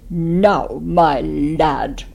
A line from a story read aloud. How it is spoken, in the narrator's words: thundered the headmaster